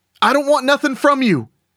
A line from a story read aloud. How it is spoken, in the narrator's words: Derek called out